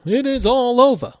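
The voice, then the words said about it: Imitates another person's voice. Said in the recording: “Howard Cosell ... my Howard Cosell impression”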